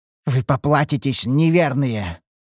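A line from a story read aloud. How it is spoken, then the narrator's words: Growled. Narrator (Russian): рыкнул темный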